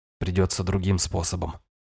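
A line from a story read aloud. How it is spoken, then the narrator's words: Muttered. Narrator (Russian): пробормотал я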